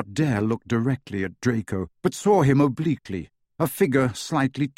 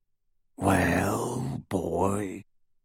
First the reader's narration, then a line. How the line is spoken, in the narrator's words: rasped the werewolf